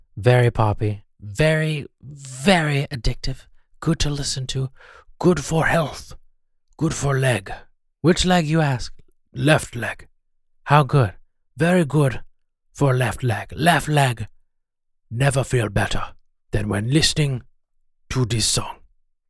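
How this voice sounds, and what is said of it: Unidentifiable put-on foreign accent. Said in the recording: “What accent is that? I have no idea.”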